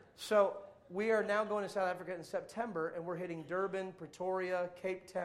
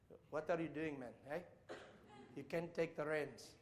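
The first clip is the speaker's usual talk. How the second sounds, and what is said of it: Poor put-on South African accent. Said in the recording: “It's a terrible South African accent, but I did my best.”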